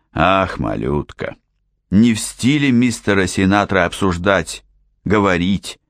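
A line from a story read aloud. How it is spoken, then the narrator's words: Calm explanation. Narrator (Russian): спокойно пояснил Джордж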